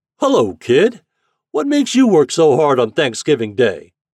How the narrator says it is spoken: the boat's captain shouting through a great trumpet

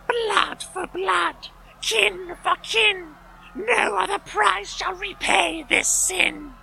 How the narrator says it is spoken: she wailed

